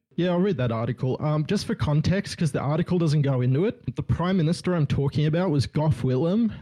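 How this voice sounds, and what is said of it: Smooth Australian accent. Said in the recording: “your smooth Australian accent”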